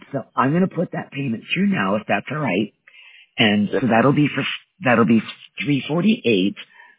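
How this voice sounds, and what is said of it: Weak, strained, failing voice. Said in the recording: “excuse my voice. I'm actually recovering from pneumonia, so my voice is off ... My voice is failing me here every once in a while”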